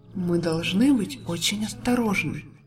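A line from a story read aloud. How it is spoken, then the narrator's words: Quiet. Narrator (Russian): тихо произнесла волшебница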